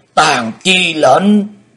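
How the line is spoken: Loud roar. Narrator (Vietnamese): gầm to

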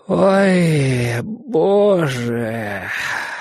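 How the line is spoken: Moan. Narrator (Russian): простонал Борис

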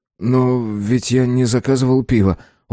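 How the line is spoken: Dejected voice. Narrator (Russian): упавшим голосом произнес я

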